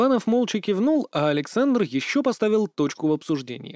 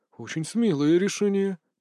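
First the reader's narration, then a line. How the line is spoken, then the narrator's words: Muttering. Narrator (Russian): пробормотал Витте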